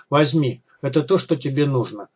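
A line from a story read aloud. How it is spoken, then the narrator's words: Quiet toneless voice. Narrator (Russian): тихо, без интонации в голосе сказал гость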